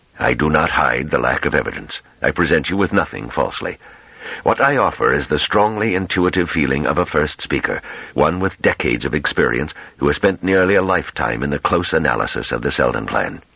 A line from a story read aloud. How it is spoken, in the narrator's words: He said coldly